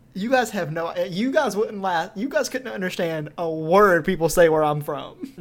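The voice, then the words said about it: Thick Southern US accent. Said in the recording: “you have the thickest Southern accent we've ever heard ... we have very deep accents”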